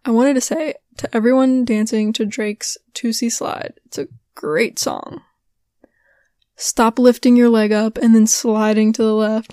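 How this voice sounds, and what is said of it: Strained, failing voice. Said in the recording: “My voice gives out ... my voice gives out ... My voice is like not having it.”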